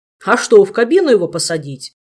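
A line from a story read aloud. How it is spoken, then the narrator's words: Snapping back. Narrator (Russian): огрызнулся Элмар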